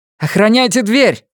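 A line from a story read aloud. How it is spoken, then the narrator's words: Growled. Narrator (Russian): рыкнула Сага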